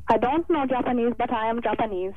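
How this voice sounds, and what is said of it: Silly put-on Japanese accent. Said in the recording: “you're putting on a silly Japanese accent ... That was rubbish. ... That was awful”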